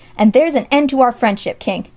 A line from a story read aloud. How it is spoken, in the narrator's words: he cried